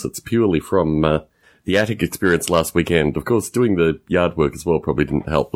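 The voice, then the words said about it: Slightly hoarse voice. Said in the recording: “I sound a little hoarse”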